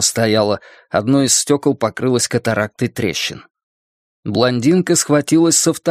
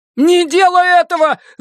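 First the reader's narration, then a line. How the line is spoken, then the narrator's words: Shouting. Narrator (Russian): закричал Гарольд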